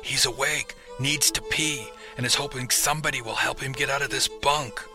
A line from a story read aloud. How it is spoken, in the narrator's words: a hoarse whisper from the other bunk said